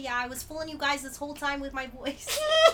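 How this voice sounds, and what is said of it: Put-on New York accent. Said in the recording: “That's not a good accent. It's the best... New York accent ever... I love doing voices.”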